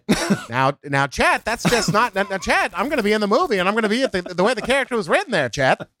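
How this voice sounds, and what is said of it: Imperfect Tom Hanks impression. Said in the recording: “I've been workshopping the Tom Hanks accent, and I don't think it's there yet ... it turned into you at the end, but the beginning was nice ... it's a little Jimmy Stewart-y at the beginning, too”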